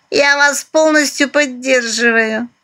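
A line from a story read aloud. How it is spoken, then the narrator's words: Hoarse giggle. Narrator (Russian): хрипло хихикнула Айзулидзе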